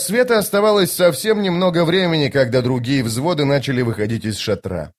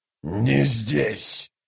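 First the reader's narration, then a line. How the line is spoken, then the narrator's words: Menacing growl. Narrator (Russian): прорычал Троц, угрожающе оскалился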